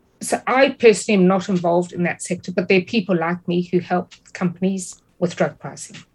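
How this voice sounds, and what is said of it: Non-American foreign accent. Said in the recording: “where you're from, if people couldn't tell already by your accent, is not the United States”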